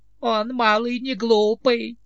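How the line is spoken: Old man giggling. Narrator (Russian): хихикнул старик

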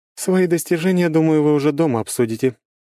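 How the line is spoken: Remark over loud laughter. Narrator (Russian): заметила Круанна, перекрывая дружный взрыв громкого хохота

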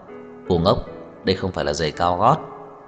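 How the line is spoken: Laughing loudly. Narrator (Vietnamese): Trang Hạo Nhiên đột nhiên cười lớn, nói

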